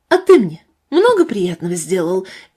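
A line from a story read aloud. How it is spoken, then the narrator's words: Sharp, tearful. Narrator (Russian): резко спросила она, и Степан заметил, что она плачет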